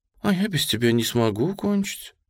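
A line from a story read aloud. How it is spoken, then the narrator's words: Slightly plaintive young woman. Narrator (Russian): немного жалобно произнесла девушка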